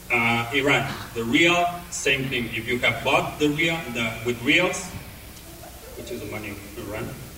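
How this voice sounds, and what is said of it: Non-native English accent. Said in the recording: “probably is my accent that sounds kind of funny”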